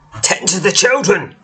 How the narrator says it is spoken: he snaps

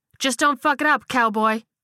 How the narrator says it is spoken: barked back

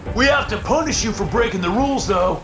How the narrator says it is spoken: he shouted again

